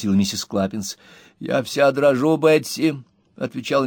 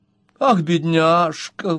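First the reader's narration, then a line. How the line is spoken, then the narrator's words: Exclaiming. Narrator (Russian): воскликнула миссис Роджерс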